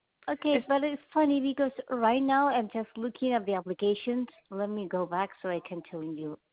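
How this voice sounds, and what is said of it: Non-native English accent. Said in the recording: “I'm sorry about my accent.”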